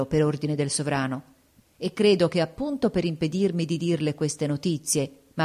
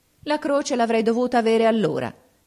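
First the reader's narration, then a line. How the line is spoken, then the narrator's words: Unruffled exclamation. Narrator (Italian): esclamò il Rassi senza sconcertarsi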